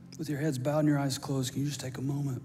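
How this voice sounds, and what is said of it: Hoarse, worn-out voice. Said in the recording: “my voice is about shot”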